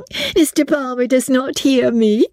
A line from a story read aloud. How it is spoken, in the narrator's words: said she, laughing